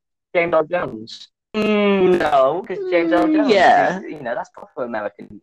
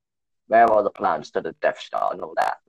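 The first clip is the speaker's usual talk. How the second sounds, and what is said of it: Poor imitation of Darth Vader's voice. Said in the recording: “That's a terrible impression of Darth Vader”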